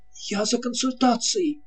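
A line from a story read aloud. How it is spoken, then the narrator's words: Hurried speech. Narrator (Russian): торопливо проговорил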